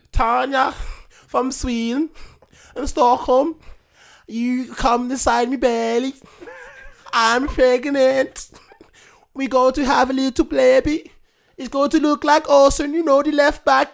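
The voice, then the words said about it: Put-on Swedish accent, Scouse and Eastern European. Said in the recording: “So that's the accent. ... Oh, I hate his accent so much. ... Little bit of scouse, little bit of Eastern European, little bit sweet.”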